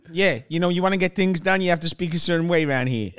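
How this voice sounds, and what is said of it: New York mafia-style accent. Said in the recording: “You sound mafia affiliated. You're from New York. You're from one of the boroughs ... you really lost your... Missouri twang.”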